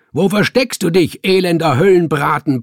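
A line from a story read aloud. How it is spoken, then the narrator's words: Roaring. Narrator (German): brüllte er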